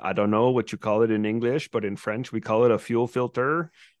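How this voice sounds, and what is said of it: French Acadian accent impression. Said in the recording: “the accent there. That's funny.”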